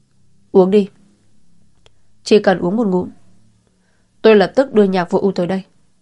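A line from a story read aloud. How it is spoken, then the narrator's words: Cold. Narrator (Vietnamese): Tề Dạng Đông lạnh lùng nói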